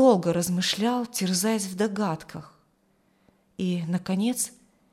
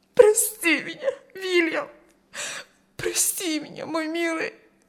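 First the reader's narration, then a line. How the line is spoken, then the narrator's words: Sobbing woman. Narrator (Russian): рыдала она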